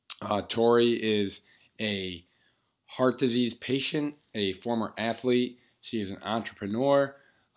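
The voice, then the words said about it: Voice a little off, strained. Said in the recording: “apologize for my voice... talking very loudly, occasionally yelling. So my voice is definitely a little bit off”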